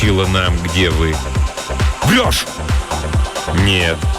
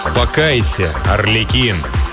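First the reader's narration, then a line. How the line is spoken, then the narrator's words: Plain. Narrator (Russian): сказал тик-такщик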